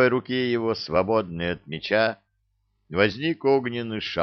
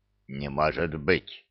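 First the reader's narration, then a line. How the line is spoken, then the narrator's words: Necromancer muttering. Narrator (Russian): пробормотал некромант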